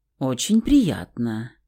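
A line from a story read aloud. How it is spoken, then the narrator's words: Soft, enveloping tone. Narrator (Russian): мягким, обволакивающим тоном ответил брюнет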